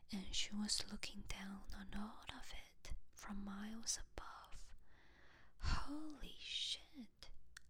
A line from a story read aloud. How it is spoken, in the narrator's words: Joe whispered, shocked into an almost catatonic state